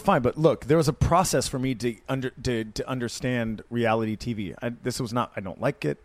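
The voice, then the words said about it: Hoarse, worn-out voice. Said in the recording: “my voice is shot from last night because I was screaming”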